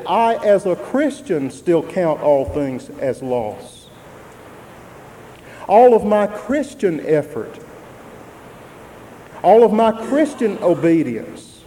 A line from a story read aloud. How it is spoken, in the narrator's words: he said